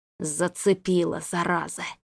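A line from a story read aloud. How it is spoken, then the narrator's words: Hiss. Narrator (Russian): прошипел он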